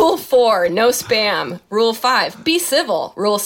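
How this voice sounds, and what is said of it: Usual voice. Nothing is said of it.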